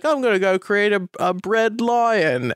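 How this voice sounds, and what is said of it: Put-on British accent. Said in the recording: “I apologize to everybody from the Caden Ritz podcast for that accent.”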